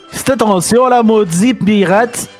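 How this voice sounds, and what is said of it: Put-on Québécois French accent. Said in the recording (French): “Tu peux nous faire avec l'accent québécois”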